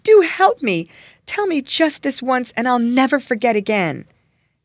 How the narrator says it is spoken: cried pitifully

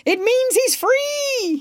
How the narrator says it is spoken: cried

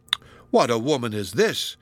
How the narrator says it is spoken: exclaimed Miriam after a long pause

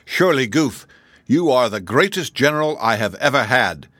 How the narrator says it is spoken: exclaimed, his eyes sparkling with joy

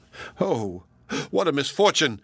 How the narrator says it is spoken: cried the host

